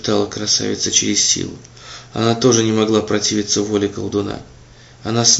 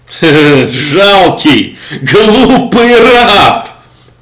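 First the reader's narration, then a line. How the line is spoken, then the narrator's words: Villainous laughter. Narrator (Russian): расхохотался этот негодяй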